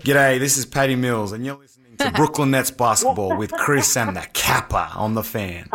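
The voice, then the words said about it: Australian accent. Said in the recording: “I love that accent.”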